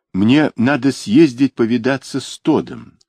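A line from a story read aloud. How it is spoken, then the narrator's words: Plain. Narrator (Russian): сказал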